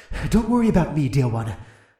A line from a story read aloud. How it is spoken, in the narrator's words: the dragon pleaded